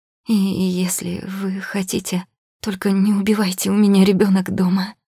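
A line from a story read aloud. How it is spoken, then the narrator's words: Stammering. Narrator (Russian): запинается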